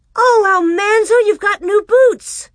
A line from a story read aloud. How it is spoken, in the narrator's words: she cried